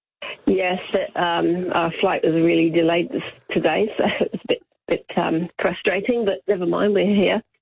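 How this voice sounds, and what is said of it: Slight English accent. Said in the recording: “a little bit of an English accent”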